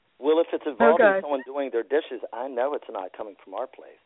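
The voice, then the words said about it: Husky, low voice, losing it. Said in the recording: “It's the power of my losing my voice. ... allergies. ... I have that slight Lauren Bacall sound in my voice tonight.”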